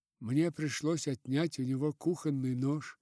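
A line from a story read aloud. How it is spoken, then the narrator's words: Slightly sleepy voice. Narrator (Russian): продолжала мисс Верлок уже слегка сонным голосом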